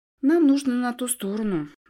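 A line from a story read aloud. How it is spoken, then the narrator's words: Sighed. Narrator (Russian): вздохнула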